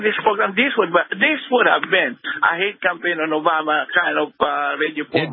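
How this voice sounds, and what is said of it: Filipino accent. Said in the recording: “you have an accent... I'm from the Philippines.”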